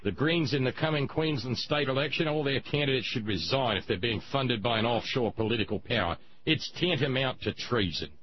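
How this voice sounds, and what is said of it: Poorly done put-on accent. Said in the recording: “My apologies for the crappy accent,”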